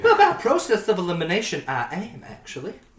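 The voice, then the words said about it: Slight put-on Southern accent. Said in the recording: “my voice has dipped into a bit of a southern accent”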